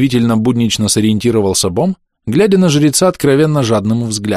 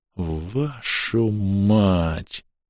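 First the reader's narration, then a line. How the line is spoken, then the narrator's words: Drawn out, strained. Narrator (Russian): протянул я, прилагая неимоверные усилия, чтобы не свалиться в припадке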